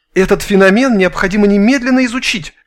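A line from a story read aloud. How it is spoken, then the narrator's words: Excited exclamation. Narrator (Russian): воскликнул Степанов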